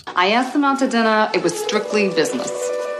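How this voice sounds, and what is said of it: Bad put-on accent. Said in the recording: “final accent of this lady who almost killed me ... it's just bad ... How painful is that?”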